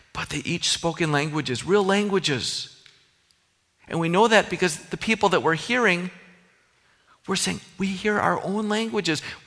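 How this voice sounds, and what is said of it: Minnesotan American accent. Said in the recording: “I still have that Minnesotan accent. Can't get rid of it.”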